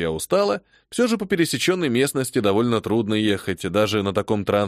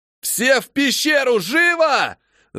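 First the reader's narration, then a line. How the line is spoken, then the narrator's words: Yelling in strange voice. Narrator (Russian): Заорал я не своим голосом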